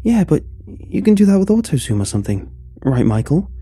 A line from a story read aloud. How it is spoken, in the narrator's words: Peter hesitantly asked